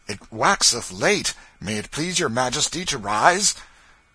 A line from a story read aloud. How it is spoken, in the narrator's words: The happy and astonished mother exclaimed